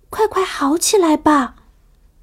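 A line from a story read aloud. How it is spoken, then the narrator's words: Soft gentle. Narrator (Chinese): 琪琪轻轻地说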